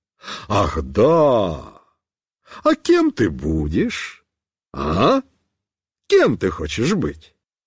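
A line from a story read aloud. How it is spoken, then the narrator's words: Happy smiling question. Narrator (Russian): радостно улыбаясь, спросит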